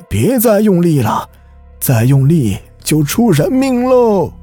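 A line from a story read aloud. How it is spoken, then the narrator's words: Old man calling out. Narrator (Chinese): 有老人叫道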